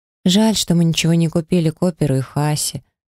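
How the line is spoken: Sigh. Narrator (Russian): вздохнула подруга

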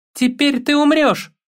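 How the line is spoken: Screaming. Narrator (Russian): завопил

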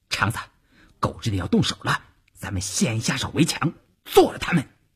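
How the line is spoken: Low voice. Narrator (Chinese): 邵月低声对前面的晋中人说

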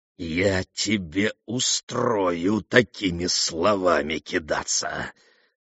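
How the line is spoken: Growling sailor. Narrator (Russian): прорычал безобразный матрос

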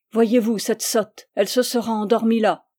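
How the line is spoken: Tipsy man's exclamation. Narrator (French): s'écria l'homme qui était un peu bu

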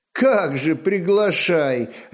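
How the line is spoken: Laughing. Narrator (Russian): рассмеялась Ефанда

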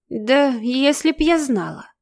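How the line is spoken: Muttering cabbage. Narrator (Russian): пробормотала капуста

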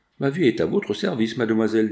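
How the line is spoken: Cheerful. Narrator (French): dit gaiement l'interne

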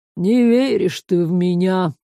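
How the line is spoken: Reproachful sigh. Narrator (Russian): укоризненно вздохнул Ларс

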